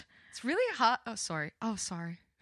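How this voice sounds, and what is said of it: Put-on Irish accent. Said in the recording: “Can we talk in Irish accents for the whole podcast? ... It's really hard to talk in an Irish accent.”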